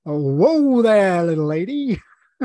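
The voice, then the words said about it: Deliberately bad put-on American accent. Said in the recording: “That's a terrible, terrible accent... I've done a pretty good impression of him there, and that was terrible... anyone who can't do an American accent”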